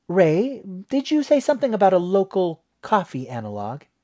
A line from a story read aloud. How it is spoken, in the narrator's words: Mom said brightly